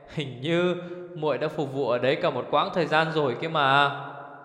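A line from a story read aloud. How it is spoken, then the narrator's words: Laughing with light cough. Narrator (Vietnamese): Ngọc Tự Hàn bật cười, phát ho nhẹ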